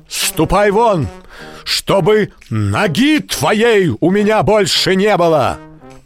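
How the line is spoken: Loud shout. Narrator (Russian): Петр громко крикнул

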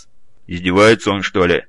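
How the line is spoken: Grumbling. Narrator (Russian): проворчал Гаранин

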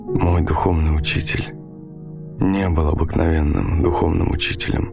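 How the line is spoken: Trembling voice. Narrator (Russian): Дрожащим голосом он проговорил

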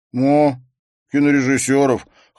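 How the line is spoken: Snorting. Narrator (Russian): хмыкнул Эндрю

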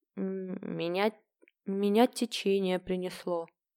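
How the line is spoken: Uncertain answer. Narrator (Russian): неуверенно ответила Люси

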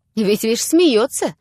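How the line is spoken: Angry. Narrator (Russian): продолжал Лупихин, злобно глядя

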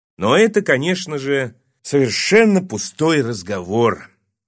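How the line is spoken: Tired concluding. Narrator (Russian): заключил Виктор Михайлович устало

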